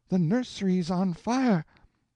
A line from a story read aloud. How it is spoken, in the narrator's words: the nurse's voice rang wildly out